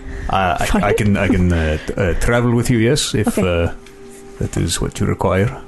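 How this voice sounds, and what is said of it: Character voice with an accent. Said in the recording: “I lost my accent. Find it.”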